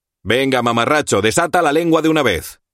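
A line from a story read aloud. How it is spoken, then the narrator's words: Urgent tone. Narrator (Spanish): dije en tono apremiante para hacerme notar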